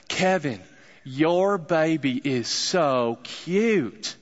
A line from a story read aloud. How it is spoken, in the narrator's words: she said, in the thickest southern accent I'd probably ever heard, she said